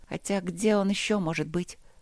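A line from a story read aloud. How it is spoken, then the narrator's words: Confident mutter. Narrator (Russian): пробормотала она уверенно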